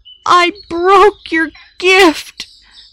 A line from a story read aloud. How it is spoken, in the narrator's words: Pip sobbed